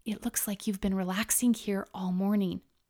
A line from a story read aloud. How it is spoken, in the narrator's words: Laya whispered